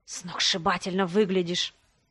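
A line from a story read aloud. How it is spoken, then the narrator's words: Whisper. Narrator (Russian): шепнул он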